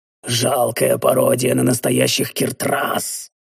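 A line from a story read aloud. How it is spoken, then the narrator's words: Hoarse, choking old man. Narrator (Russian): хрипло выдохнул старик, выплевывая очередной кровавый сгусток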